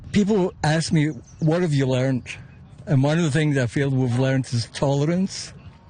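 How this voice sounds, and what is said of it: Scottish Glasgow accent. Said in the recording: “I couldn't help but notice your accent. ... Originally from Glasgow.”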